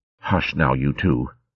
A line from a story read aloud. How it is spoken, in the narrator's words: she said, dropping her voice to a whisper